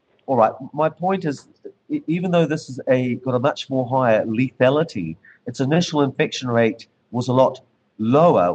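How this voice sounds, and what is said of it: New Zealand accent. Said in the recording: “it's the Kiwi accent ... I think it's the New Zealand accent”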